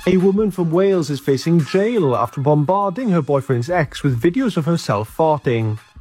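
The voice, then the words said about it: Charming accent. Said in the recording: “The accent's charming.”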